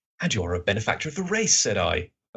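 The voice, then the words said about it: Watson character voice. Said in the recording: “That's my Watson voice.”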